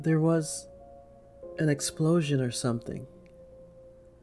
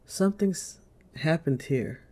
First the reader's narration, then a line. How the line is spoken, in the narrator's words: Sarah replies slowly, her voice filled with pain and worry